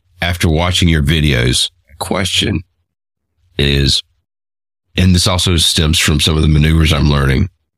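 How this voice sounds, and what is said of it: Voice affected by a cold. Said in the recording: “apologize for my voice. I'm battling a little bit of a cold here.”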